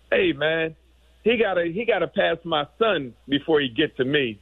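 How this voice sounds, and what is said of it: Imitated Southern US accent. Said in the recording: “with his southern accent”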